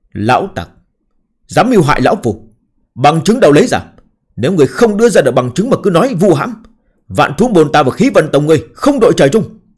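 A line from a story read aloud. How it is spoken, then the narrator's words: Stern, angry scolding. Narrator (Vietnamese): Triều Kính nghiêm nghị giận dữ mắng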